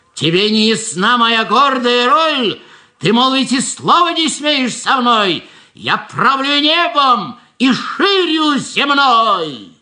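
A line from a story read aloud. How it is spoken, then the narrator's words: Boastful shouting. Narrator (Russian): он кричал, как он страшно велик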